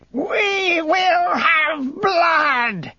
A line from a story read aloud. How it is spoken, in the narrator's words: she roared, and the sound of her threat filled the room so that the very stones trembled